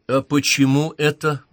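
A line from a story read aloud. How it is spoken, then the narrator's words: Loud question. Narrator (Russian): громко спросила Даша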